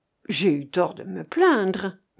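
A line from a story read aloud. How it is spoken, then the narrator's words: Murmuring. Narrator (French): murmura-t-il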